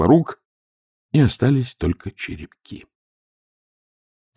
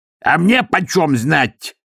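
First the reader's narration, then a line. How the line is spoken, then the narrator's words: Barking. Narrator (Russian): рявкнул Силорук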